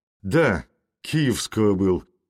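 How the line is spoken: Sullen, angry. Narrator (Russian): насупившись сердито, говорил Крицкий

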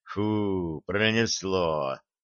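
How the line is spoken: Relieved exhale. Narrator (Russian): с облегчением выдохнул Черныш

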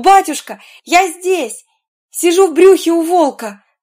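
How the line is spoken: Boy exclaiming. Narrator (Russian): мальчик-спальщик воскликнул

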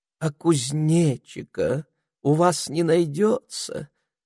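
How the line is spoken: Dreamy question. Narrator (Russian): мечтательным тоном спросила

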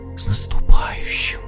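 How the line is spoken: Whisper through cold lips. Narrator (Russian): прошептал Ваня синими губами

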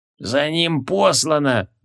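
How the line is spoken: Creaky voice. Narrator (Russian): проскрипел Барахи

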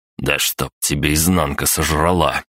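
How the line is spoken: Angry cursing. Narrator (Russian): выргался я

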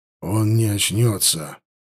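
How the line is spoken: Grim reply. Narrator (Russian): мрачно ответил Даргаш

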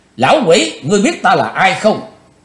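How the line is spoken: Cold shout. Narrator (Vietnamese): Chí Tôn lãnh đạm quát

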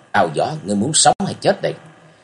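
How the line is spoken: Cold. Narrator (Vietnamese): Nam Cung Lượng lạnh lùng nói

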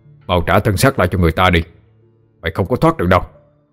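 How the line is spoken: Growling. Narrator (Vietnamese): gầm gừ

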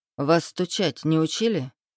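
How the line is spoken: Asked sternly. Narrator (Russian): строго спросил

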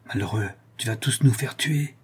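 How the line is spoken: Low voice. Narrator (French): dit-il à voix basse

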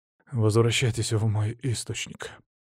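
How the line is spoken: Heavy sigh. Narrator (Russian): тяжело вздохнул Венедикт

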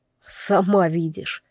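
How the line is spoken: Muttered. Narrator (Russian): буркнул

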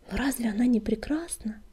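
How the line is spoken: Whisper. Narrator (Russian): прошептал Куртобок

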